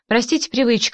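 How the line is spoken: Said with a chuckle. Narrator (Russian): сказал он и снова хохотнул

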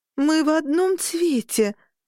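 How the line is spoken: Moaning. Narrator (Russian): застонала я

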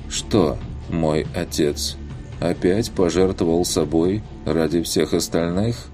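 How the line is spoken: Dry lifeless voice. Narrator (Russian): сухим безжизненным голосом произнесла демонесса

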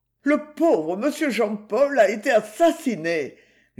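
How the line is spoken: Moaning. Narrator (French): gémit-il

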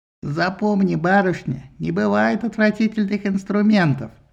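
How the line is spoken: Nasty goatlike bleat. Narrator (Russian): Гнусным козлиным голосом заблеял он

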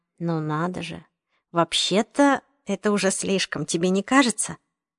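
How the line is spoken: Whisper in ear. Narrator (Russian): Натан прошептал на ухо

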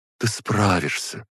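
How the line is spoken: After a deep sigh. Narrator (Russian): Аза, глубоко вздохнув

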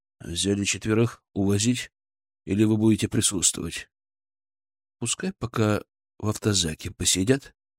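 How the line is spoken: Whisper. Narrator (Russian): он шепнул мне

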